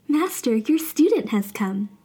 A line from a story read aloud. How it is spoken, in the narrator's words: the Monkey King called loudly